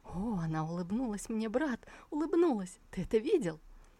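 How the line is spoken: Excited joyful whisper. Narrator (Russian): Цяньхай возликовал и взволнованно зашептал на ухо своему подопечному

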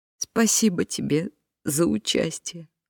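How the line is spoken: Sobbing. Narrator (Russian): всхлипнула Дилейни

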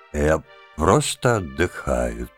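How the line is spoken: Dull, flat voice. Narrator (Russian): тусклым голосом сказал он

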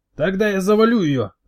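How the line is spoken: Throat-straining scream. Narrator (Russian): закричал гематоген, надрывая горло

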